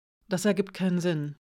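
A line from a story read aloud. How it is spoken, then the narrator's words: Murmuring. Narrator (German): murmelte sie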